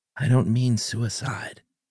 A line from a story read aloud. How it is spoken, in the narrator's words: Bob murmured under his breath